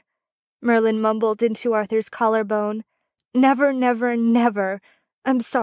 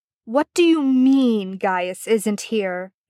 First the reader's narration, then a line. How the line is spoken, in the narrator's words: Arthur Pendragon snapped angrily at Merlin